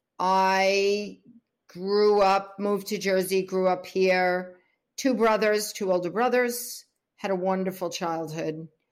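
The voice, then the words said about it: New York accent. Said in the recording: “Born in New York, if you can't tell by my voice.”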